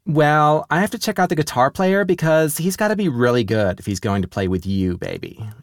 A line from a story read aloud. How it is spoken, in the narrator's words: she cooed, getting on all our nerves